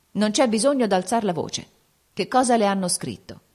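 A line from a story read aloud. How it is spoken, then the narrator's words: Cold and calm. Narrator (Italian): egli rispose, freddo e calmo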